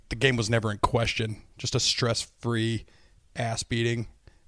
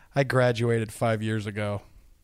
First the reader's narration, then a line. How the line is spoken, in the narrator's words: She chuckled and said